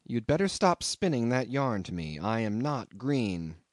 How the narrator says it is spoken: said quite calmly

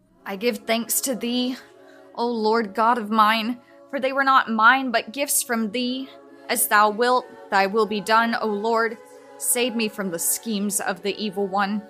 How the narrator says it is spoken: with many tears, she groaned, saying

